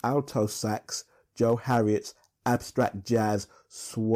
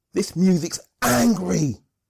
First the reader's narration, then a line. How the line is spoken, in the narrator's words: Hayden, age 6, shouts